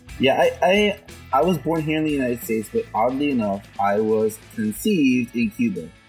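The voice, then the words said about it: Slight South Florida Hispanic accent. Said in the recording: “you still have a bit of that South Florida Hispanic accent”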